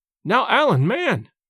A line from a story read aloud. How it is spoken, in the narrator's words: cried James